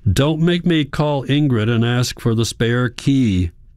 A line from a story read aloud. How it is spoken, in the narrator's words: Hans shouts, his forehead against the glass